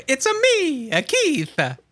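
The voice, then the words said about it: Mario video game character impression. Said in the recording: “That was a Mario impression ... my vocal comedic stylings”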